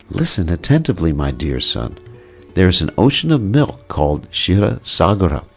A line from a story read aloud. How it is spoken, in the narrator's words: Mother spoke in a gentle, sweet voice